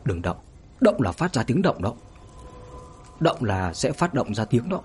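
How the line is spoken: Soft warning whisper. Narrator (Vietnamese): người thanh niên mặt trắng khẽ nói

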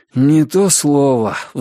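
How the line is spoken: Sigh. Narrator (Russian): вздохнул Ричард

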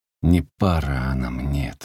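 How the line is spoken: Firm, grim. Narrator (Russian): твердо и мрачно вслух сказал Игнат

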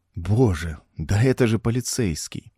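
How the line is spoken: Relieved sigh. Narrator (Russian): Смертин вздохнул с облегчением

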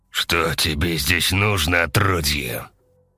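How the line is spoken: Growl. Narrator (Russian): прорычал он

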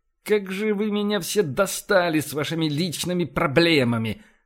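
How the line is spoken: Hissed. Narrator (Russian): прошипел Эссекс

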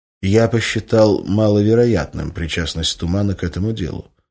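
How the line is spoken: Calm reply. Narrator (Russian): спокойно ответил рентген

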